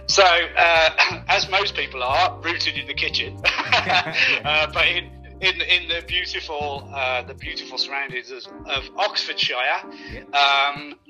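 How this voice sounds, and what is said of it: Birmingham (Brummie) accent. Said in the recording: “Not a native, as you can probably tell from my tone. I'm a Brummie by nature, kept that with me.”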